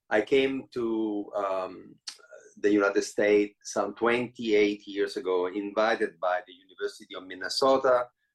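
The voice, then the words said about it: Italian accent. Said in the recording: “Italian born. The way you can hear from my accent”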